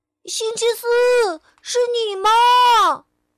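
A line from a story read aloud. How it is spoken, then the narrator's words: Shouting over humming wheels. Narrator (Chinese): 车轮嗡嗡的响着，波波喊道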